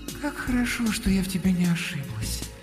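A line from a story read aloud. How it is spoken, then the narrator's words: Cooing. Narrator (Russian): проворковала Алёнушка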